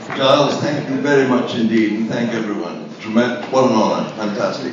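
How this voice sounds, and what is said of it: Strong upper-class RP English accent. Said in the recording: “all delivered in an epic RP accent.”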